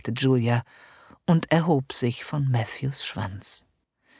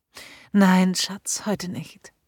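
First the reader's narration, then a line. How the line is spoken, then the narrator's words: Contented sigh. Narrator (German): sagte Julia und ließ sich wohlig seufzend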